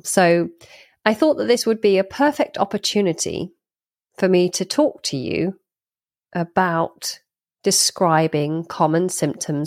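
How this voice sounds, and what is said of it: Congested, nasal voice. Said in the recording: “You might be wondering what's going on with my voice ... if you're wondering whether I'm wearing a peg on my nose ... I do, in fact, have a cold.”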